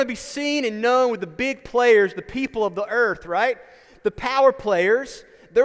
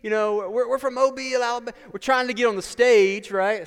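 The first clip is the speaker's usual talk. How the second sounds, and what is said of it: Put-on regional accent. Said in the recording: “Sorry for the accent. I'm not sure where that comes from.”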